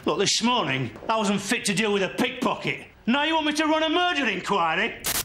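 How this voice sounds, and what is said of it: West Yorkshire accent. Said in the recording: “That's a Yorkshire accent. ... Probably a West Yorkshire accent.”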